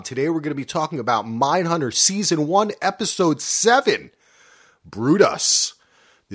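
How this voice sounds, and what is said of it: Excited radio announcer voice. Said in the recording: “I'm getting into my radio voice. I'm getting excited.”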